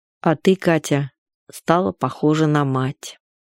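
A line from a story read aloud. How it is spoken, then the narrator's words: Sad. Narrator (Russian): сказал грустно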